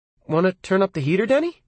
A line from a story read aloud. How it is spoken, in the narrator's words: Mom asked brightly